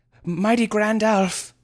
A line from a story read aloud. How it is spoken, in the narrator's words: he eventually panted